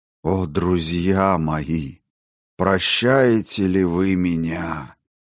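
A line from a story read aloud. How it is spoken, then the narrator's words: Hollow, strange, unsettling voice. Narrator (Russian): произнес он глухо и таким странным голосом, что я невольно затрепетал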